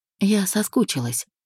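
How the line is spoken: Soft whisper. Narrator (Russian): прошептала тихо

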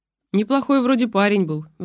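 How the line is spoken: Sighing. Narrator (Russian): вздохнул мой собеседник

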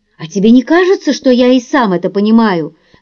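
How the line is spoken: Bitter snap. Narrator (Russian): с горечью огрызнулся Пол

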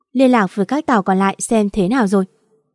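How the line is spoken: Cold. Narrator (Vietnamese): Kiến Thành lạnh lùng lên tiếng

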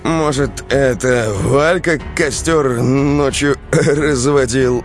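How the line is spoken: Uncertain question. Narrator (Russian): неуверенно спросил Андрей

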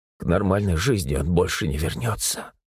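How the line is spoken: Tearful whisper. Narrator (Russian): прошептала Татьяна, смахивая с глаз слезы

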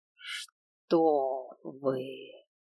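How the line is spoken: Purring. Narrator (Russian): Практически промурлыкал дракон

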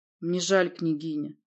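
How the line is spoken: Gloomy. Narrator (Russian): сказал я мрачно

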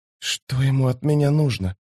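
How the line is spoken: Whisper. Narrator (Russian): прошептала Фелисин

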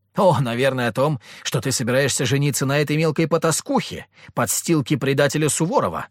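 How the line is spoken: Angry shout. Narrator (Russian): выкрикнула Надежда

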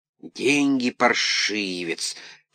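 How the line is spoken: Short man hissing. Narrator (Russian): шипел низенький

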